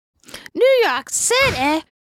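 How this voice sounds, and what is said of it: Put-on accent of unclear kind. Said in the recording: “I don't know what that accent was.”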